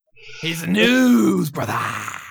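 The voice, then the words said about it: Shouted fake American accent. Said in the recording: “I'm just shouting now in American accent. ... That's so awful. That's so ... Bad.”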